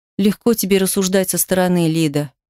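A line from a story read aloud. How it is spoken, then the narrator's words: Sigh. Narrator (Russian): вздохнула я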